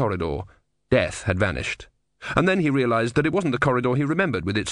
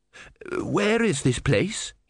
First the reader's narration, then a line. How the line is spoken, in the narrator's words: He said hoarsely